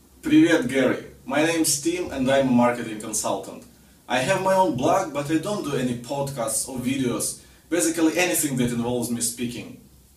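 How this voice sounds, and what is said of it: Russian accent. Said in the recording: “I have this terrible Russian accent ... my Russian accent ... you sound like all my relatives ... that Russian accent is so endearing”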